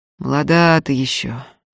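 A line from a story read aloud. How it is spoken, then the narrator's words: Father's sad sigh. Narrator (Russian): грустно вздохнул отец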